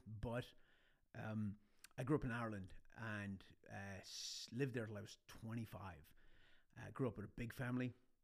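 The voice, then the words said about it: Irish-American accent. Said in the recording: “this weird Irish-American accent that you can't place”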